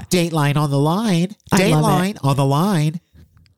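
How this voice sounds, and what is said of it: Old-timey announcer accent. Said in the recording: “if you sold it with that old timey accent”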